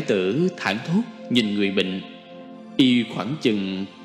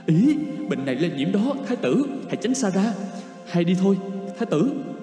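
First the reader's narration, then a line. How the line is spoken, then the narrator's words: Fearful father. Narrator (Vietnamese): Giọng cha Na đầy vẻ sợ hãi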